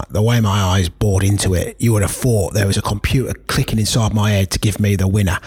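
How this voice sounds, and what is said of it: Put-on Cockney accent. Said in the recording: “I'll try and do it in a cockney voice”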